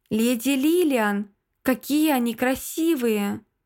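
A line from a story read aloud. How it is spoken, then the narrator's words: Exclaiming, then plaintive plea. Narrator (Russian): воскликнула Джесси и жалобно попросила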